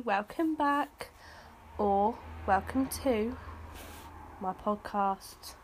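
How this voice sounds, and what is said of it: Put-on accent, not speaker's own. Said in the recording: “I don't know why I've changed my accent, that's not my real accent.”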